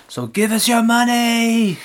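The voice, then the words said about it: Put-on Scottish accent. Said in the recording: “That was a Scottish accent.”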